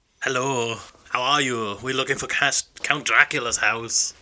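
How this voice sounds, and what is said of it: Put-on Transylvanian accent. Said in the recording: “what do you mean this isn't an authentic Transylvanian accent? ... No, I'm not talking funny.”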